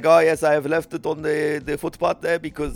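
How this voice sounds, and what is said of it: Put-on foreign accent. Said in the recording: “foreign accents, man? ... Why are all your villains got a foreign accent?”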